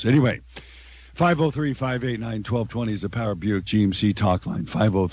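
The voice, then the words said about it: Raspy voice from a cold. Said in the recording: “Sorry for the raspy voice, but I have a little bit of a cold.”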